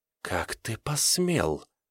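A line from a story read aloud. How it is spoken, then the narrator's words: Hissed. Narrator (Russian): прошипела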